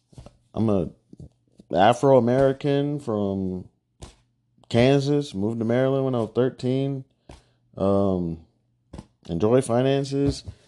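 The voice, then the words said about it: Flat, monotone, low-energy voice. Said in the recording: “I'm really monotone, really just chill, boring.”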